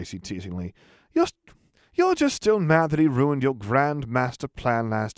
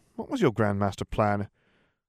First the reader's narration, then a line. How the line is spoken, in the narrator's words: Daphne sighed